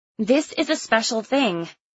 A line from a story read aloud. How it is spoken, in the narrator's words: I said to my father, my voice rising in panic